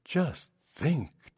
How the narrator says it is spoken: Tara exclaimed

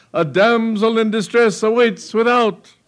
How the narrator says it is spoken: he cried

